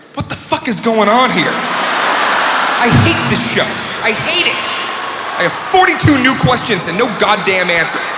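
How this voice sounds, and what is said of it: Exaggerated frustrated impression of himself. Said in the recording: “gonna do a quick impression of me watching Lost”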